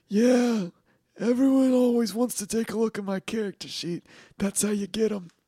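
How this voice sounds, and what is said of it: Over-the-top conspiracy theorist uncle voice. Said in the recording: “do you sound like my conspiracy theorist uncle?... dial it down”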